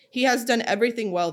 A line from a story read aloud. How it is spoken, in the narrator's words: they said